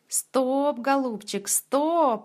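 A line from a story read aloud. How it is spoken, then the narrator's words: Joyful mutter. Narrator (Russian): радостно бормотал Васютка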